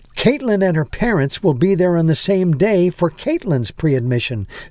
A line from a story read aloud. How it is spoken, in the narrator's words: said the administrator